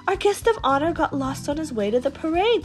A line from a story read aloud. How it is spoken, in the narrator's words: Sir Topham cried